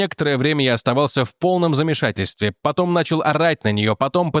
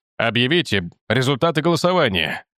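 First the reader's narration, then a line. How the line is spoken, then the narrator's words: Growling. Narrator (Russian): прорычал Майлз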